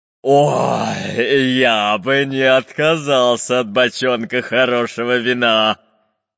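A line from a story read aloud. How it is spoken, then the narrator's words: Pirate's deep bass. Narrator (Russian): пробасил пират Буль-Буль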